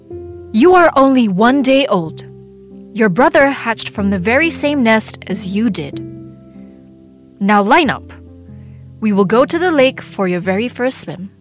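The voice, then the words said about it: Stern motherly voice. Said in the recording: “said Mama Duck in a stern voice.”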